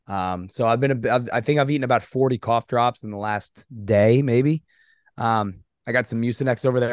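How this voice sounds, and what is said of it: Hoarse, strained voice. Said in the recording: “you sound like you're still recovering from this thing... I lost my voice on Thursday... I had no voice... you're already losing your voice”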